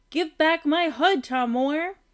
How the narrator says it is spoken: she cried

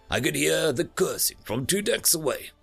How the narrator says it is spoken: the captain grunted

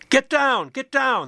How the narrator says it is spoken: the police shouted

